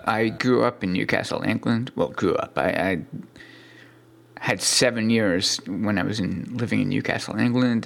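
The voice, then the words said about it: Thick British-Swedish accent. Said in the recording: “your thick British / Swedish accent. ... It's pretty noticeable.”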